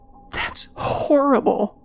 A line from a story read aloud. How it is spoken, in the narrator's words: Joan gasped